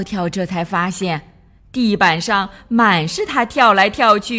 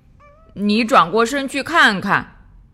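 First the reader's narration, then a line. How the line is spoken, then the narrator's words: Sighing. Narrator (Chinese): 笨笨叹口气，对他说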